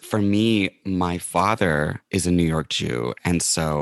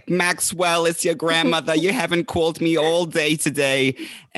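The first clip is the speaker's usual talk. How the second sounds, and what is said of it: New York Jewish grandmother accent. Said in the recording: “I have had a New York Jewish grandmother ... And that accent is not exaggerated. That's how she was.”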